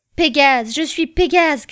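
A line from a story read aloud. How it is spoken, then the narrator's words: Shouted. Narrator (French): cria-t-il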